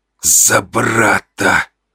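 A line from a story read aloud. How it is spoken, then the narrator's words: Hissing. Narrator (Russian): прошипел он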